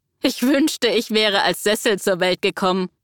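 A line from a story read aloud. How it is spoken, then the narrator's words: Laughing. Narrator (German): lachte Dietmar ihr entgegen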